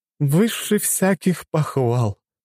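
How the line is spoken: Sighing. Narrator (Russian): вздохнула Инга Аскольдовна

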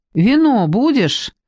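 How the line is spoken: Shout. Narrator (Russian): крикнула Люба

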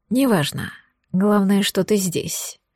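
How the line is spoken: Breathed against lips. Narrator (Russian): выдохнул Мада мне в губы

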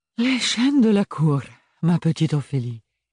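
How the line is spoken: Exclaiming. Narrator (French): s'exclama

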